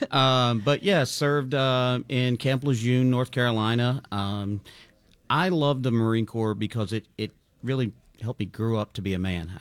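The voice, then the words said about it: South Carolina Southern US accent. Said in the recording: “I'm from South Carolina ... I couldn't tell by the accent. ... The accent, not Philly, huh?”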